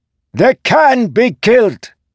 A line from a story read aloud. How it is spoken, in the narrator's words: Sigsel shouted